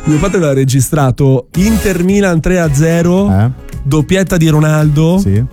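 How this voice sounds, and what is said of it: Strong Milanese Italian accent. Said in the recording (Italian): “dirlo con un accento meno milanese ... non posso far uscire la mia milanesità”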